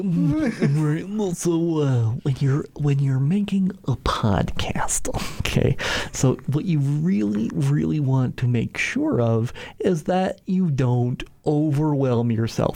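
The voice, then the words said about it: Goofy voice. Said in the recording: “my serious answer in a goofy voice”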